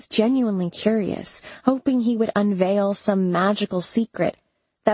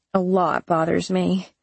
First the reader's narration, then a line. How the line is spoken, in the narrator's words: I grumbled